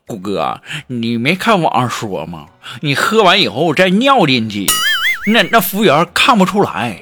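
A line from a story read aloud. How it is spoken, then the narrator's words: Smiling. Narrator (Chinese): 锦凡笑笑就说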